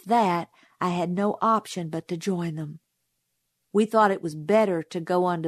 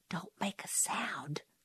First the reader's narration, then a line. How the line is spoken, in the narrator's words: he whispered